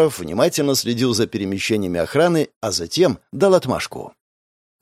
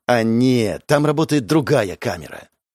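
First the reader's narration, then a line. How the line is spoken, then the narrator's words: Upset exclamation. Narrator (Russian): огорченно воскликнул Уваров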